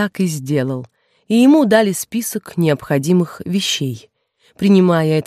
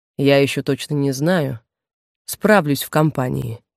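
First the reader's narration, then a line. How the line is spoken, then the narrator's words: Even voice. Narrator (Russian): ровным голосом ответил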